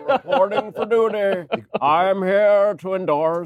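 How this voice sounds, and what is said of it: John Kerry impression. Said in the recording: “I actually do a fairly good John Kerry impersonation ... a good impersonation”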